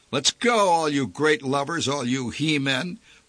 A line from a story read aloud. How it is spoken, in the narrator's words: barked a man in a purple derby